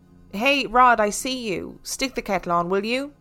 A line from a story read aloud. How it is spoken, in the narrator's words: I called out